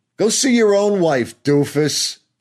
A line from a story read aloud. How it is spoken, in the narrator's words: she shouts after me